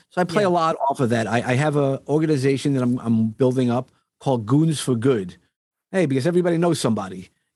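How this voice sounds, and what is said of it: New York accent. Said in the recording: “as you could hear, I definitely have that New York accent.”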